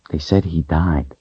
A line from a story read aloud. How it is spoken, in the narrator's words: confided softly